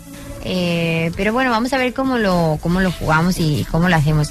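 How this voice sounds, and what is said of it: Spanish with Colombian accent. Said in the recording (Catalan): “parlant accent Colòmbia”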